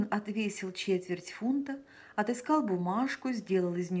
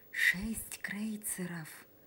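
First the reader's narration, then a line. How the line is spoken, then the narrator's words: Whispered answer. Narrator (Russian): таким же шепотом отвечала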